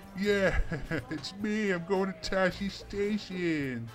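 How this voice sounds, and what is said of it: Imitates a character's odd accent. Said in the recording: “Luke with his weird South Tatooine accent”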